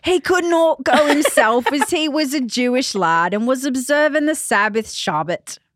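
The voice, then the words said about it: Exaggerated North London English accent. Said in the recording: “Can you say that in a North London accent? ... I really want to do a horrible English accent ... you sound like the host of Love Island ... I'm going to go back to regular voice.”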